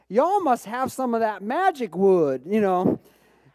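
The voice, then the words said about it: Deep Southern accent. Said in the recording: “says in a deep Southern accent”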